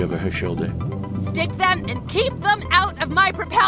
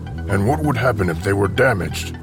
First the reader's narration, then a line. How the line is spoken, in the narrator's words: growled Darf, though even he sounded somewhat alarmed